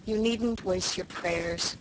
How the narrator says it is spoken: said Dan mournfully

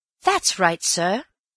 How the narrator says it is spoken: said Elsie eagerly

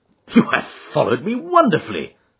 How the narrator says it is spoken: I exclaimed

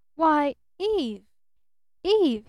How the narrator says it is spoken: he stammered

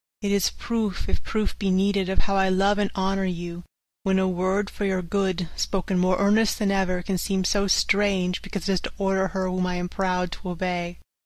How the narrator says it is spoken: said sadly

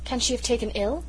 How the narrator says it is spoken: exclaimed Mrs

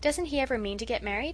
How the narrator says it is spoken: asked Felix

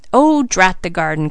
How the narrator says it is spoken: cried Mr

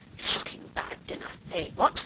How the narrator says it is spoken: we heard him mutter to himself

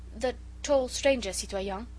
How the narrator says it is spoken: he stammered

